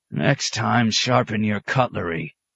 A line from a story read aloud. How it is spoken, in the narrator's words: the poet wheezed